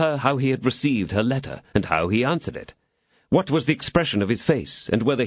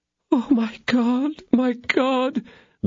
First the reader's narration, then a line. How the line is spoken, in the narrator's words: groaned Kitty